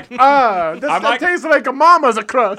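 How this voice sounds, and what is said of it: Put-on old-country Italian accent. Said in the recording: “Feel like you're in old Italy ... that accent is you're allowed to be like ... from the old country”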